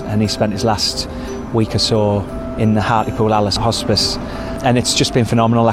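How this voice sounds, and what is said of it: Thick regional English accent. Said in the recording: “that's a thick accent.”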